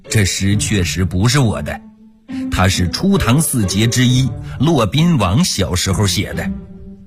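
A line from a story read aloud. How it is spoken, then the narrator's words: Smiling. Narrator (Chinese): 欧阳修笑了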